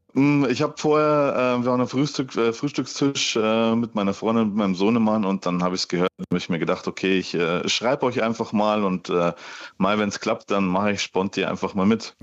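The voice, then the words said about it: Bavarian regional accent. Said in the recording (German): “man hört, du kommst aus Ingolstadt. ... ein bisschen die bayerische Note ... Dialekte”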